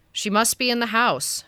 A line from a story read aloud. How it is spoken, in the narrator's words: she said